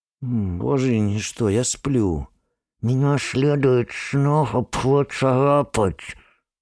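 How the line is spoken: Lisping, burring. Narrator (Russian): Шепелявит и картавит царапина

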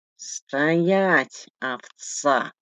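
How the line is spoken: Husky whisper. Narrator (Russian): сиплый шепот

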